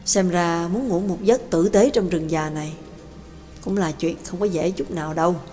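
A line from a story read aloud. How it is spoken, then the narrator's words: Wistful sigh. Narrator (Vietnamese): Nhạc Dương cảm khái thở dài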